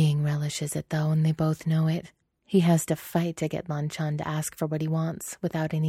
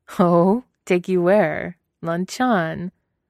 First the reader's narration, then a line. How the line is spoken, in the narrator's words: He chuckles